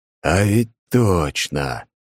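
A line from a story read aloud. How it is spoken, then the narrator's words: Joyful silent inner exclamation. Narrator (Russian): радостно восклицаю про себя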